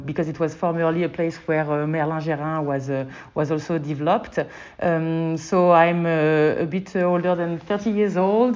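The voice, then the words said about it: French accent. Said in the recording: “I think I can tell from your accent ... I presume that you are originally from France.”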